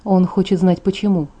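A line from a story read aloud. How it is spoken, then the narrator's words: Quiet. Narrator (Russian): тихо произнес Эдвард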